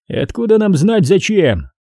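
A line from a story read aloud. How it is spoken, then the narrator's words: Cold. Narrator (Russian): холодно произнес Рамос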